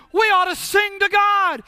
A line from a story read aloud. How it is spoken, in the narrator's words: somebody shouted